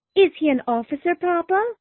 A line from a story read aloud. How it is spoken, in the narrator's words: asked Lydia eagerly